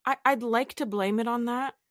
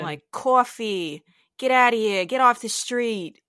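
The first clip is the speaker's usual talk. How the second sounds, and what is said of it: Put-on stereotypical New York accent. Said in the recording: “stereotypical New York accent ... Can you turn on the accent, should you choose? ... I think I just did. ... You did. The coffee was really good.”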